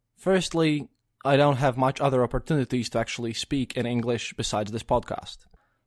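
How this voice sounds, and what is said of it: Non-native English accent. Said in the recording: “my accent ... That's just how I talk, really ... my voice and pronunciation of things must sound weird to my native English speaking listeners ... I was taught British English at school”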